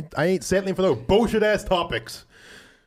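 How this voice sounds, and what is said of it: Raised, aggressive loud voice. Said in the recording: “Sorry, I raised my voice. ... That was aggressive.”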